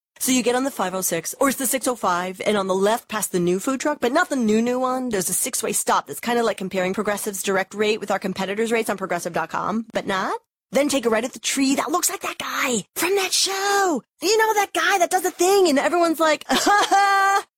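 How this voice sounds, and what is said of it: Impression of a rambling, confused direction-giver. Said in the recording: “this is my impression of someone who is terrible at giving directions”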